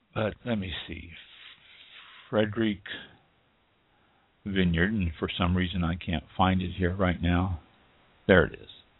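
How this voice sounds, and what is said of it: Weak, failing voice. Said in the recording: “I've got a bad voice tonight. ... save me from losing my voice completely.”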